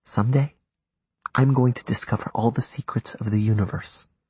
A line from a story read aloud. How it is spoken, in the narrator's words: Dante whispered